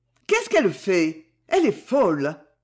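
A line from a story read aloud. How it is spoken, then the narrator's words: Exclaimed. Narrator (French): s'exclama-t-elle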